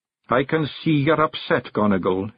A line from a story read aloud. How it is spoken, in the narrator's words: he mumbled